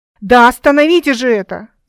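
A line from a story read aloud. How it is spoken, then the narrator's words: Growling. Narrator (Russian): зарычала Эл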